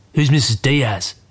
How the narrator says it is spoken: Dad grunts

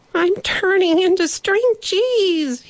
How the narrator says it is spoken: he cried

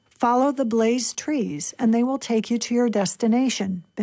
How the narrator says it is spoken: Benjamin said

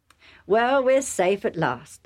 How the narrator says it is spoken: Isaac said

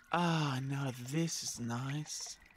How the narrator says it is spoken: sighed the Yowie

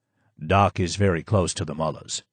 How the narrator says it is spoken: Yamin said, his voice low and calm

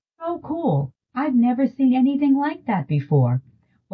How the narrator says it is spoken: Both the flight attendants and the aisle chair staff kept exclaiming

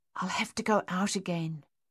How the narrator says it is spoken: François said softly

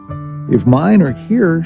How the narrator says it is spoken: she moaned in despair

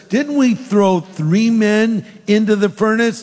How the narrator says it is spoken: Nebuchadnezzar in amazement exclaimed to his advisors

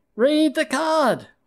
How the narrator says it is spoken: we shouted

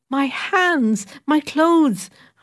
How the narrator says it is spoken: I cried

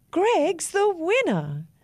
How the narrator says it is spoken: the judge shouted out

